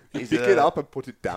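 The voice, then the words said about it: Arnold Schwarzenegger impression. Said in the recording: “impersonation of what he said ... Arnold Schwarzenegger”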